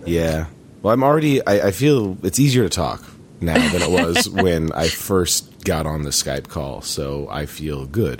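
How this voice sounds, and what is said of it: Hoarse, worn-out voice. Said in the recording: “my voice is shot ... my voice will slowly come back”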